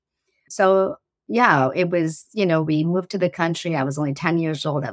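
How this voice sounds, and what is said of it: Slight foreign accent. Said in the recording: “I have a slight accent”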